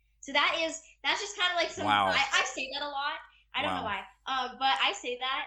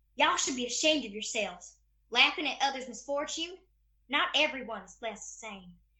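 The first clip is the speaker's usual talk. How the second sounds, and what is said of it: Put-on Southern accent. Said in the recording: “something that I like to like throw around a little bit with my Southern accent”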